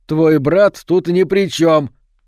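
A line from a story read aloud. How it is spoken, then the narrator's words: Shout after someone. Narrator (Russian): крикнул ей вслед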